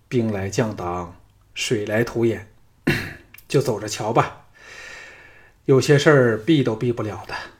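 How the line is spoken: Weary sighing. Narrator (Chinese): 项少龙想起吕不韦逼婚的事儿，叹了一口气说

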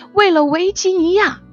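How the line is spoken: Shouting, flushed with emotion. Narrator (Chinese): 于超涨红了脸，大喊

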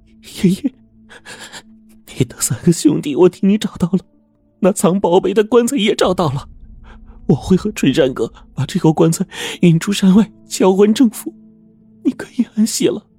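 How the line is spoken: Crying. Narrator (Chinese): 陈梅哭着说

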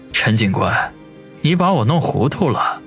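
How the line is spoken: Deep, grave voice. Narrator (Chinese): 王宇 沉声的说道

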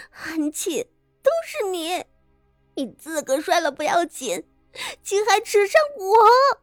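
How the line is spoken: Muffled, shrill scream. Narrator (Chinese): 因着伤及门牙，昭娇的声色含混不清，但那凄厉的惨叫

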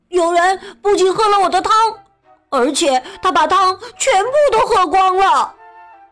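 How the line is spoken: Loud angry yell. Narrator (Chinese): 特别小的熊大吼起来

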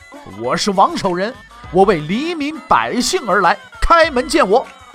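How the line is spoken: Loud, grief-stricken, powerful. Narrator (Chinese): 饱含悲愤与力量的声音穿透了沉默的大门，回荡在空旷的庭院之中

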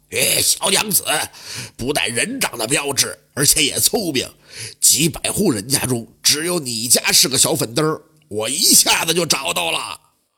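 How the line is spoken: Gruff male voice. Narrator (Chinese): 那男子声音粗犷的说道

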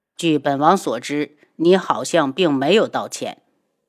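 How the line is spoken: Cold. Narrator (Chinese): 轩辕志冷冷的看着他

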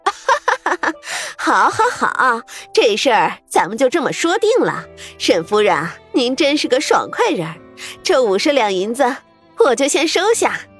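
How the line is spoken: Hearty laughter, old madam. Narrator (Chinese): 老鸨子爽快的笑声

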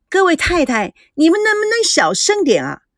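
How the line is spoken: Loud protest. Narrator (Chinese): 秋妹大声的阻扰他们

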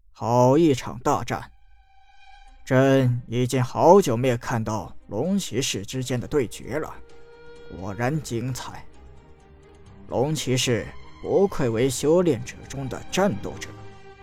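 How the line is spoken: Admiring exclamation. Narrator (Chinese): 楚国皇帝赞叹道

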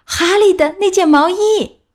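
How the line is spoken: Shouting together. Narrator (Chinese): 他们一起喊道

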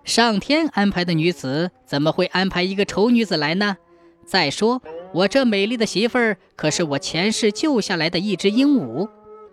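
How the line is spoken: Laughing happily. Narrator (Chinese): 陈海听了这些话，高兴的哈哈大笑，说道

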